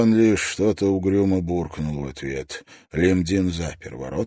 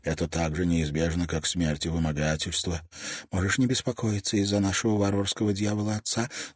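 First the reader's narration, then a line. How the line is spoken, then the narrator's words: Whispered reply. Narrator (Russian): зашептала в ответ Асам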